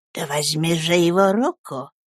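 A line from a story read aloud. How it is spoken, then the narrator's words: Exasperated whisper. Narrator (Russian): шепнула она тоном женщины, вышедшей из терпения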